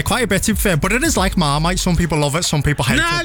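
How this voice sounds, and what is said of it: Scouse accent. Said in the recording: “I love your accent. ... I love the Scouse accent”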